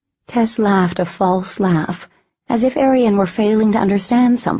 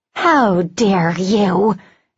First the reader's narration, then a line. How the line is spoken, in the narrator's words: Arian spat